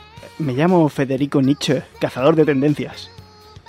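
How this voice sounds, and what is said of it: Eerie voice from beyond the grave. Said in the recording (Spanish): “Voz de ultratumba.”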